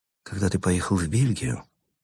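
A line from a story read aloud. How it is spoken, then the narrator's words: Quiet, clerk. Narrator (Russian): тихо произнес писарь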